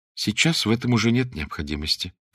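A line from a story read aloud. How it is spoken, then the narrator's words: Sad. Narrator (Russian): печально сказала она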